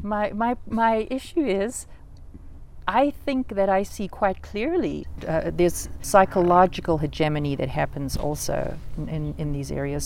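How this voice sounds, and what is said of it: Accented English speaker. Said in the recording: “I have an accent for one thing.”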